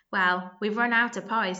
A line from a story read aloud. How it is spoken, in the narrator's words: said Ringo